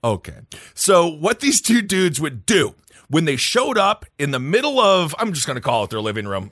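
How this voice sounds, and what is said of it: Midwestern American accent. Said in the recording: “I have a Midwest accent. My vowels are all messed up.”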